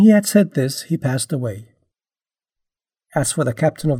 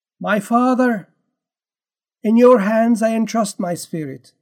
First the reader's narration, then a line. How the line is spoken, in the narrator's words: Jesus called out loudly, saying